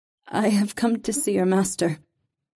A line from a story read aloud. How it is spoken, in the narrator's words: Reva said shakily